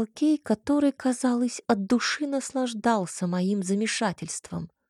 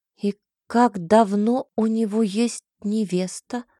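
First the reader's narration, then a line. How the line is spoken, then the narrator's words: Plain. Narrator (Russian): спросила я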